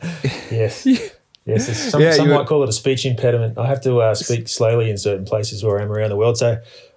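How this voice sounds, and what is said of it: Australian accent. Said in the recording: “we can tell from your voice straight away that you are not English or American ... I love the accent. It sounds beautiful to me.”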